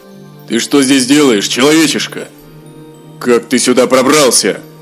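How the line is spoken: Gruff dwarvish voice. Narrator (Russian): Один из них черствым гномьим голосом спросил

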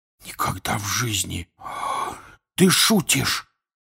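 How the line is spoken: Whisper. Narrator (Russian): прошептал Рон

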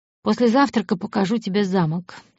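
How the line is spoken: Calm. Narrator (Russian): спокойно сказал

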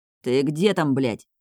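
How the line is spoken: Irritated growl, stone. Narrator (Russian): Снова раздраженно рычит камень

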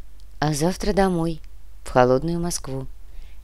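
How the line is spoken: Sad smiling voice. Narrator (Russian): Грустно улыбнулась Яна

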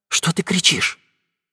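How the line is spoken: Very quiet. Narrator (Russian): сказал кто-то совсем тихо

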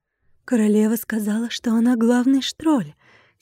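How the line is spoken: Quiet reply. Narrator (Russian): тихо ответила дриада

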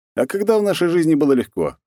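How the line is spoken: Wry snort. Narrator (Russian): хмыкнул

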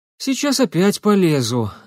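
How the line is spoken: Resigned sigh. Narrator (Russian): обреченно вздохнул Никита

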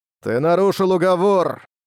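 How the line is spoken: Booming voice. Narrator (Russian): прогремел голос Тянь Юньцзы

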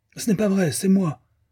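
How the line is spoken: Defiant yelp. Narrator (French): glapit Bun, d'un air de défi

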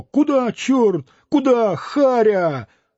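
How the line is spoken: Frightened comical cries. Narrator (Russian): двое, вскрикивая испуганно и смешно

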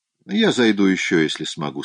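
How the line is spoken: Plain. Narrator (Russian): сказал он

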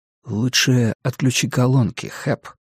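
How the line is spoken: Gentle interjection. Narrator (Russian): мягко вставил Стью

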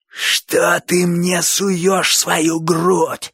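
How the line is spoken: Terrifying hoarse rasp. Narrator (Russian): страшным голосом захрипел Боча

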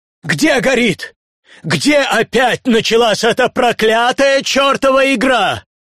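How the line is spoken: Old man's waking shout. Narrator (Russian): старик мой проснулся и закричал

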